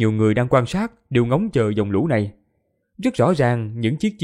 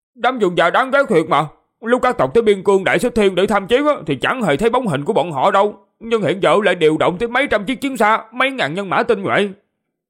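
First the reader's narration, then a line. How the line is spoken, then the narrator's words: Angry. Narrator (Vietnamese): Tàu Vũ Sinh tức giận, nói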